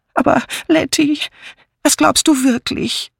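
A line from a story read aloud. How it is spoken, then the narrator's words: Whining. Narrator (German): jammerte Miss Banner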